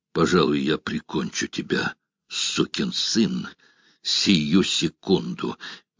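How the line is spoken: Strained, choked voice. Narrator (Russian): Гросс произнес сдавленным голосом

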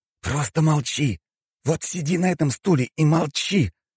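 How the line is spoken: Hissed. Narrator (Russian): прошипел Роман

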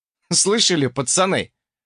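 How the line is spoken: Smirking grunt. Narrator (Russian): хмыкнул я

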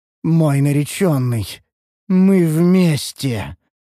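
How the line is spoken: Otherworldly voice. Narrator (Russian): заявила эльфийка потусторонним голосом

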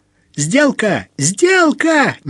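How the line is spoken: Boy yelling uncontrollably. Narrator (Russian): не удержался, завопил пацаненок

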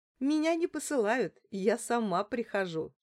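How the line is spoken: Giggling. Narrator (Russian): хихикнула я

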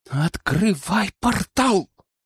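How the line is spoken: Quiet command. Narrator (Russian): тихо скомандовал я

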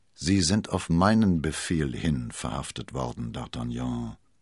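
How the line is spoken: Gloomy voice. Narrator (German): sagte mit düsterer Stimme

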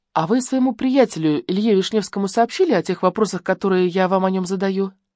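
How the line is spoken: Grumble after pause. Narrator (Russian): Бергер помолчал, а потом буркнул

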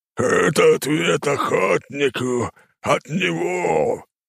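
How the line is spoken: Monstrous roar. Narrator (Russian): Тварь взревела

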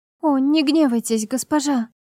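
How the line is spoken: Frightened cry. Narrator (Russian): вскрикнула испуганная Иринга

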